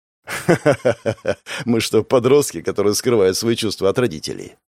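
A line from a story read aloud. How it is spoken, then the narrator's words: Laughing. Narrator (Russian): Денис засмеялся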